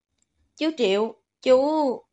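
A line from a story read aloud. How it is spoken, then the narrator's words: Sighing, trailing off. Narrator (Vietnamese): thở dài một tiếng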